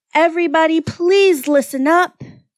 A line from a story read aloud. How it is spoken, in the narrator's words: he bellowed